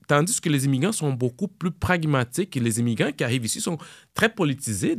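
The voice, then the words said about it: Non-native French accent. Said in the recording (French): “moi, j'ai un accent. Puis tout le monde va poser la question. Hey, ton accent, tu viens d'où?”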